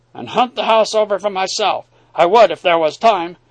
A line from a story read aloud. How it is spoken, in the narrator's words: he cried